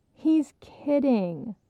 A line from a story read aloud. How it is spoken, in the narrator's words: Leslie laughed